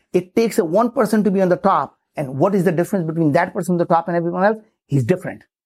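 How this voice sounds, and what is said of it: Thick accent. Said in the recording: “having such a thick accent, if you're not giving me 99% of your brain cycle, you have no idea what I said”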